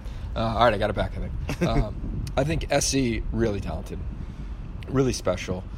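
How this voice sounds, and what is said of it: Hoarse, strained voice. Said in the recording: “I'm losing my voice a little bit... You are losing your voice... I know, I really am.”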